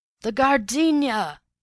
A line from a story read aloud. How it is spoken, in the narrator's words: the millionaire had bawled